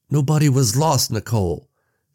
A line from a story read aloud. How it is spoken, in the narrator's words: Sam yelled, finally raising his voice to match hers